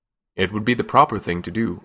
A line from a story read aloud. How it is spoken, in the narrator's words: Omar added stiffly